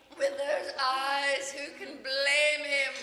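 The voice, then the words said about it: Stage accent with drawn-out syllables. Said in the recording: “your accent in this play ... some of the words, like the syllables, get drawn out, like the way you say eyes, blame, even teeth”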